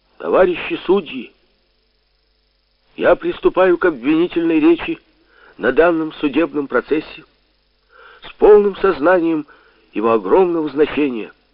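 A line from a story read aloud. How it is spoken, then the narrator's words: Loud shout filling hall. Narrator (Russian): громко крикнул я на весь зал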